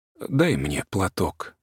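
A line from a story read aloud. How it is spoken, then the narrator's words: Quiet, childlike broken sigh. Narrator (Russian): тихо ответила она и по-детски прерывисто вздохнула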